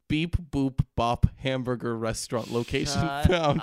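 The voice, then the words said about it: Robot voice. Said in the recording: “in a robot voice”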